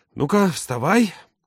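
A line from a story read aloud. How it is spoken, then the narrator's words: Indignant lowing. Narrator (Russian): тот возмущенно замычал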